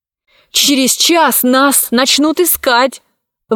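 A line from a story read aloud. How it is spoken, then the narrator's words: Shouting out. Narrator (Russian): выкрикнул Пашка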